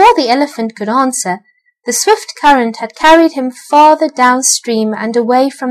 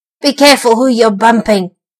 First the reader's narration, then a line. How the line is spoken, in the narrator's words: snarled the rat